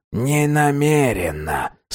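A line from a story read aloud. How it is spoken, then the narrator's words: Strange soothing tone. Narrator (Russian): сказал Фич странным успокаивающим тоном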